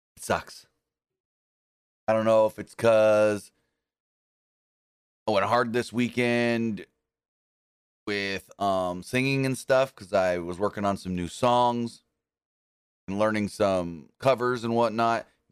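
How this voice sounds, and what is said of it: Strained voice, losing voice. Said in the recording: “I think I'm losing my voice. I really think I'm losing my voice. You guys can probably hear it.”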